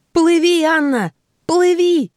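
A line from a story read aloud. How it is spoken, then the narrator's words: Yelling. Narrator (Russian): заорал Ти-Джей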